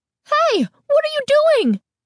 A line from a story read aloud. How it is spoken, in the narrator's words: the woman demanded, her voice shrill and angry